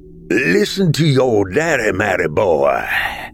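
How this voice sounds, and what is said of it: Cold Southern twang. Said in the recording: “Cold southern twang”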